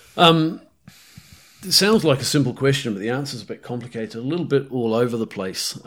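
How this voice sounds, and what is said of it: Mixed New Zealand, British, South African accent. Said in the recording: “my accent's very hard for them to pin down ... they'll either say I sound Australian, South African, or British. They almost never say Kiwi ... mine is not a good example of that anyway ... my accent is a medley of all of those places, actually, South Africa, the UK, New Zealand, probably a little bit of Aussie in there, and a little bit of Canadian”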